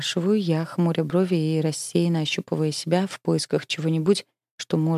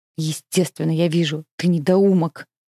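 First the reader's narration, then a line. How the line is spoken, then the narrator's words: Angry interrupting bark. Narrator (Russian): Злобно рявкает Харон, обрывая Гермеса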